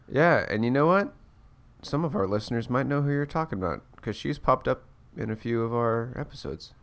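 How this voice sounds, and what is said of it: Sick, congested voice. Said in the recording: “just fighting this cold... I'm little hopped up on the NyQuil... apologies if I'm a little loopy or if my voice sounds like yes”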